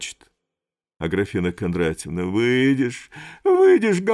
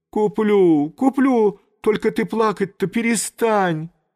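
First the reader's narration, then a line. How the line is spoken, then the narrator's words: Speaking through tears. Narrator (Russian): Липочка сквозь слезы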